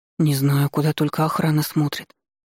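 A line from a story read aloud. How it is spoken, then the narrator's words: Sighing woman. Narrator (Russian): вздохнула вторая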